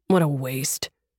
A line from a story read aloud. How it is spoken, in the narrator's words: Miller muttered darkly